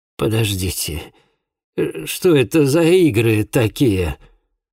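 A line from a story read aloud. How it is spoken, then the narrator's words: Tense grieving father, trembling voice. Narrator (Russian): отец погибшей девушки напрягся, произнес дрогнувшим голосом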